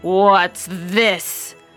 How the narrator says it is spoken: growled the father bear in his great big voice

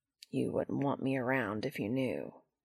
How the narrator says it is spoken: Cass sigh and mutter

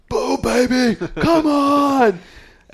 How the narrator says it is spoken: Bubba comes yelling out of nowhere

